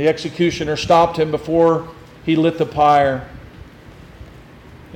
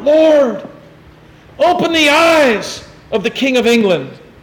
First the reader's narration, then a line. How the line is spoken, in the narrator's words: crying thus at the stake with fervent zeal, in a loud voice he cried out